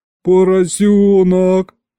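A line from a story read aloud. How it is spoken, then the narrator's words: Melancholy drawl. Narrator (Russian): Тоскливо протянул я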